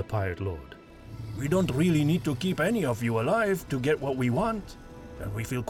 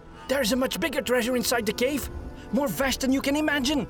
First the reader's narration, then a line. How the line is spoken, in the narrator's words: Gustav blurted out